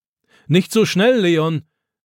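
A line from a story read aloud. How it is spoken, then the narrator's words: Old man calling after. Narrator (German): ruft Opa ihm nach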